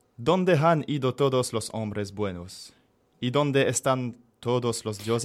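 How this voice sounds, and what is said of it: Very thick foreign accent in Spanish. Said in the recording (French): “mon accent à couper au couteau”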